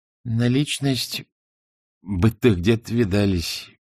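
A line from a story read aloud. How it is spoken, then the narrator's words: Unsure mumble. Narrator (Russian): промямлил неуверенно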